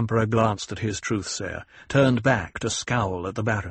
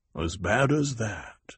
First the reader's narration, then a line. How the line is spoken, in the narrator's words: the Emperor murmured, and his tone of derision